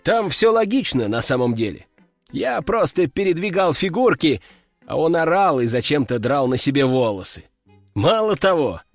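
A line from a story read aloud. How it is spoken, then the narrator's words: Chuckling. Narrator (Russian): хохотнул он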